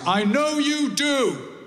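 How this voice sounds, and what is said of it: Loud, shouted line. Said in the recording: “in a loud voice”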